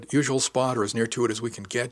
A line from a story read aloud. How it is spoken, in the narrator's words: she said